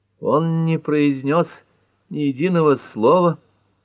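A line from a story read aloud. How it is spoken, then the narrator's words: Moan. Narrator (Russian): простонала Пэт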